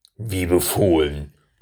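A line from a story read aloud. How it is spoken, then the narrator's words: Curt growl. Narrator (German): knurrte er knapp hinterher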